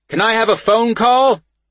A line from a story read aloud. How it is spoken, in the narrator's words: I shout through the open door